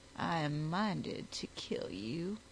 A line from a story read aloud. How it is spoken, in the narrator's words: she said coolly